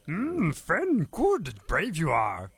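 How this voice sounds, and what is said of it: Mangled Yoda character voice. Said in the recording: “a sort of a mangled Yoda”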